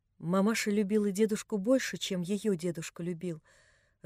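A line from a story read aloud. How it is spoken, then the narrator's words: Timid but firm. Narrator (Russian): робко, но твердо проговорила Нелли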